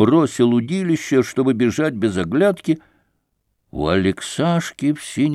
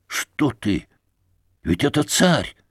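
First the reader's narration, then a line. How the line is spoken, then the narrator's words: Whispered. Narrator (Russian): Алешка шепнул Алексашке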